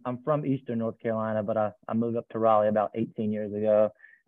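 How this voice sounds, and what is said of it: North Carolina Southern accent. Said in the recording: “if you couldn't tell by the accent, I'm from North Carolina”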